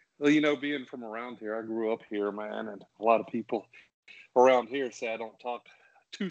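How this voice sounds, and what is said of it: Southern American accent. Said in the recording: “someone with a cool accent ... that southern accent ... you got a southern accent”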